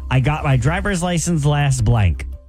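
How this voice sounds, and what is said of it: Monotone reading. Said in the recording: “In a monotone voice,”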